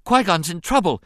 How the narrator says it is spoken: the boy blurted out, gasping for breath

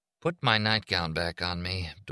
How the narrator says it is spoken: Doreen murmured

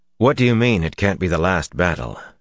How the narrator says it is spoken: Rand tried to keep his voice smooth

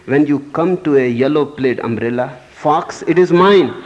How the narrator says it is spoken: Putting his mouth to the keyhole, he shouted

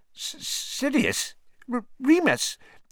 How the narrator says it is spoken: Pettigrew's voice was squeaky

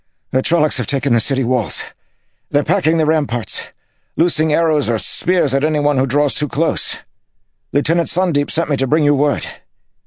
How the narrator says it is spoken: Filger said, panting

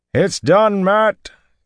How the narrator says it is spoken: came Tolmanus' shout

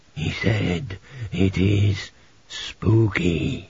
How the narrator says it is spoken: he croaked

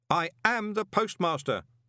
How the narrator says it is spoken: Moist shouted

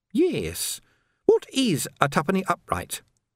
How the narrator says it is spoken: said Sandra brightly

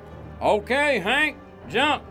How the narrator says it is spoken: Loper called out

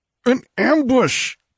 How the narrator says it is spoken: cried Conan, striving to struggle upright

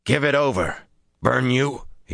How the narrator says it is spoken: he snarled

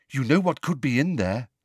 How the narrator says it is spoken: said Luna eagerly

